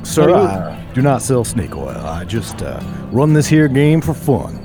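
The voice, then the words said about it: Put-on Southern American accent. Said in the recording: “Now I'm doing a southern accent again.”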